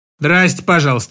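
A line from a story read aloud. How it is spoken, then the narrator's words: Old woman's grumble. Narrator (Russian): буркнула бабушка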